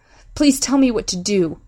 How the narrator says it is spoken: Amy pleaded

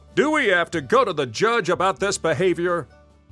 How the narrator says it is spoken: He shouted at Raker

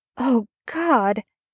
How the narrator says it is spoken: Merlin gasps

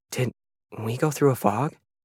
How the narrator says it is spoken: asked anxiously

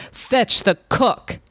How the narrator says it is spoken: in a voice like thunder, he shouted

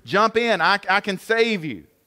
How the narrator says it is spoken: the guy shouted out to the man on the roof

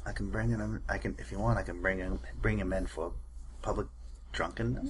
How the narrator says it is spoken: mumble

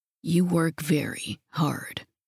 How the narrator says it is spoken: he said quietly

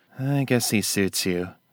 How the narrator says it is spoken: Glenn sighed

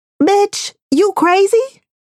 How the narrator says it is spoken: the voice in my head that sounds suspiciously close to my mother's screams

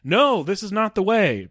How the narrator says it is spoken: Hela shouts

